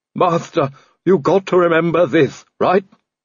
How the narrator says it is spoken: Igor groaned

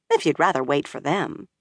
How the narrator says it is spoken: Min said dryly

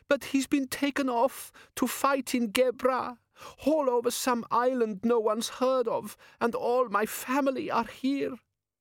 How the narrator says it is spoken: she sobbed

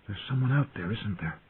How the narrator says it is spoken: He whispered

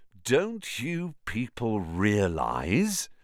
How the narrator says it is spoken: said Lockhart, speaking slowly, as though they were all a bit dim

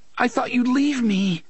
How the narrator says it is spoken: the boy was sobbing

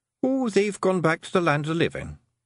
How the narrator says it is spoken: said Rob Anybody cheerfully

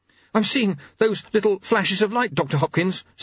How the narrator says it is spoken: said Jeremy urgently

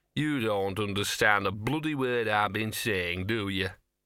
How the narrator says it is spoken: he muttered

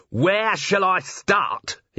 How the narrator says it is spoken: He yelled

